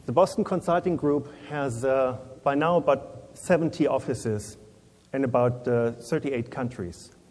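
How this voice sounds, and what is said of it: Non-native accent speaking English. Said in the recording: “forgive me with my English accent”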